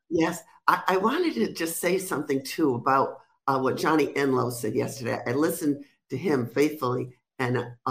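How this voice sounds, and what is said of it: Rhode Island accent, sounds New York. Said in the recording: “you sound like you're in New York ... I never lost my accent, my Rhode Island accent ... I'm from Rhode Island, but I sound like I'm from New York.”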